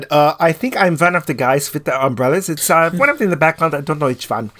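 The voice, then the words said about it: Imitates another person's voice. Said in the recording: “My impersonation is perfect.”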